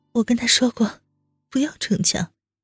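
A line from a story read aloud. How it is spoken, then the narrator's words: Hesitant hoarse voice. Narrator (Chinese): 温之夏讷讷的 沙哑道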